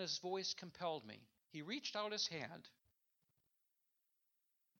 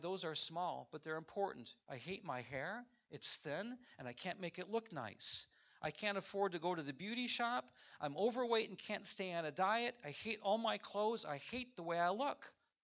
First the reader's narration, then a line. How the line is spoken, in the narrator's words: said with a sigh